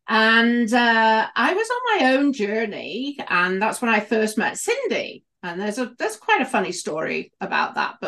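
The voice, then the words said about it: British accent. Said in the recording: “I was a midwife for many, many years in the UK. You can probably tell from my accent.”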